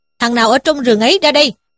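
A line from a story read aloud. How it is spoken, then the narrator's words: Loud shouted question. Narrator (Vietnamese): quát to lên mà hỏi rằng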